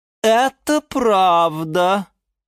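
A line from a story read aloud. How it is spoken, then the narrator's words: Shouting. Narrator (Russian): закричала Лиана Диана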